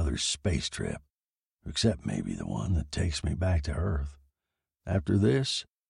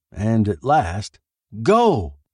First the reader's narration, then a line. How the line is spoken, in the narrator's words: shouted Jimmy eagerly